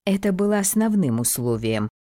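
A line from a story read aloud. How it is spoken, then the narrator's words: Sighing. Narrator (Russian): вздохнула Фелиция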